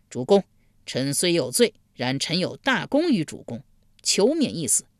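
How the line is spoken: Loud cry. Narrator (Chinese): 贾华高声呼道

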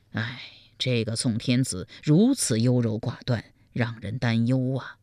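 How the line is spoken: Sighing to oneself. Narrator (Chinese): 赵普暗自叹道

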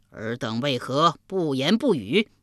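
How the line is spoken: Repeated questioning. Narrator (Chinese): 连问三遍

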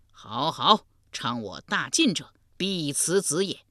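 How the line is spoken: Loud laughter. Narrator (Chinese): 燕胡大笑道

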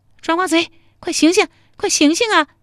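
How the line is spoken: Familiar female voice. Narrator (Chinese): 这声音好熟，还是个女的，莫不是陶三春吧

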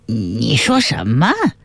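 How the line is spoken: Strange, strained tone. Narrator (Chinese): 侯伦压住惊异，想笑一笑，却没能笑出来，发出怪异的腔调

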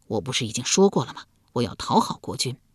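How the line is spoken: Hushed voice. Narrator (Chinese): 易牙压低声音道

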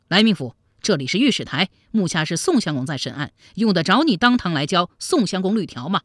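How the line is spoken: Angry. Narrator (Chinese): 来俊臣脸上怒气顿生

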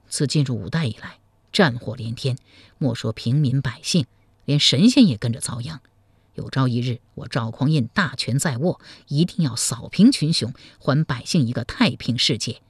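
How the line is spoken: Sighing to himself. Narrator (Chinese): 赵匡胤暗自叹道

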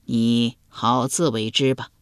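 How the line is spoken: Sighing. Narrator (Chinese): 庄公 叹道

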